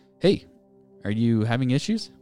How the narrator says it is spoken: called out

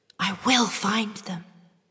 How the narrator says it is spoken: she whispered to her reflection

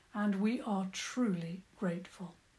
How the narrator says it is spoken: the Lyondar spoke gravely

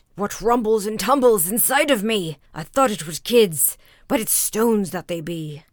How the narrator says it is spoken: Then he cried out

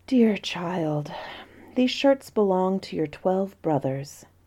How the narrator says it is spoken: The queen sighed as she replied

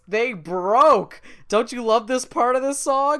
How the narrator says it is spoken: DW loudly exclaims

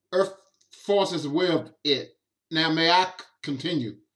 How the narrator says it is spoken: Flockley slowly says

